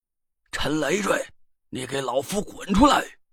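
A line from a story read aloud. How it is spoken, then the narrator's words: Furious roar. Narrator (Chinese): 郑玄的身影急匆匆的跑了进来……气急败坏的咆哮了起来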